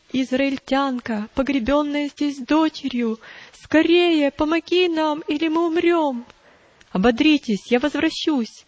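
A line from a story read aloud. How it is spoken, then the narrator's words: Loud sobbing. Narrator (Russian): Женщина громко зарыдала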